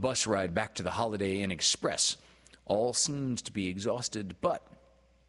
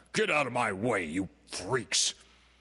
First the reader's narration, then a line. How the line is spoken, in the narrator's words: the man shout several times